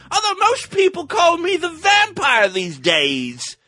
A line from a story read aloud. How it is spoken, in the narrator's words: he grumbled